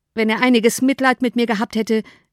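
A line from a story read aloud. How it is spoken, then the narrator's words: Impatient exclamation. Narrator (German): rief Bennet ungeduldig aus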